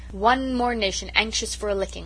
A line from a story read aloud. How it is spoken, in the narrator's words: Susan only remarked scornfully